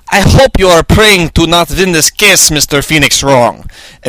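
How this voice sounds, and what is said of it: Put-on Russian accent. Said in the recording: “had a Russian accent.”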